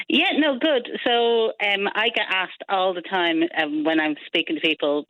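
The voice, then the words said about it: Dublin Irish accent. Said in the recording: “so that's a Dublin accent ... It is, yes. Yes, I'm from Dublin.”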